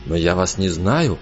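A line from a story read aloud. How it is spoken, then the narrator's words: Mumbled. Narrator (Russian): пробормотал он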